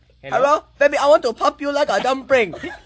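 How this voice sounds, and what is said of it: Exaggerated put-on foreign accent. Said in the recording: “What kind of accent is that? ... Every accent. ... Vietnamese. ... It sounds Mexican.”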